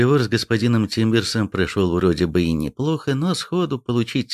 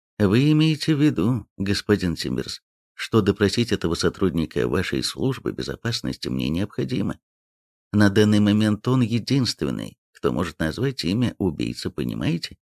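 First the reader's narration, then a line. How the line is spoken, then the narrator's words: Quiet. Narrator (Russian): Никонов сказал негромко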